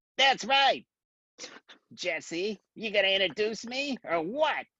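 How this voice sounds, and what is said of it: Imitates another person's voice. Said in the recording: “That was a good imitation. You just need the cigar.”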